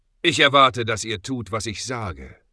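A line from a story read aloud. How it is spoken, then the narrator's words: Sharp retort. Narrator (German): entgegnete Ezekiel scharf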